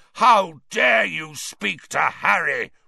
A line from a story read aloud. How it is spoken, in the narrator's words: roared Black